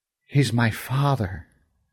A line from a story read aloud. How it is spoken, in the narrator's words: said, his voice quivering, his eyes welling with tears